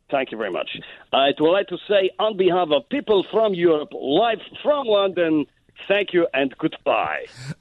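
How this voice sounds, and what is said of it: Put-on Latvian accent. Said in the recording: “He was trying to do the Latvian accent. ... That was pure Latvian.”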